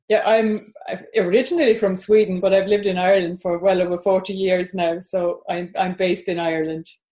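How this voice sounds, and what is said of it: Slight foreign accent. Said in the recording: “So you're hearing a bit of an accent there.”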